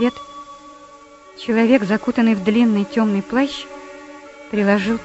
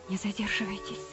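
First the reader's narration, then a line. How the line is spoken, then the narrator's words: Whisper in English. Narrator (Russian): прошептал он по-английски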